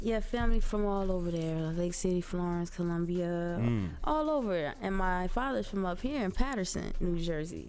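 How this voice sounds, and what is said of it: Heavy Southern American accent. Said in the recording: “You have a very slight, let me rephrase that, heavy Southern accent.”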